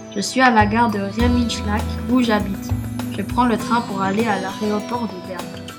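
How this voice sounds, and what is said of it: French with put-on German accent. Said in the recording (French): “Bob le touriste allemand ... je suis allemand comme vous pouvez le constater avec mon accent”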